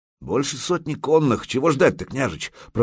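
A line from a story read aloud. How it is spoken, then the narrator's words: Grumbling. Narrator (Russian): проворчал Загреба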